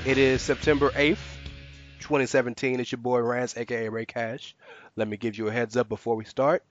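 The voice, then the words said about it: Congested voice with a cold. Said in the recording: “I have a cold, so if you hear me cough or sneeze”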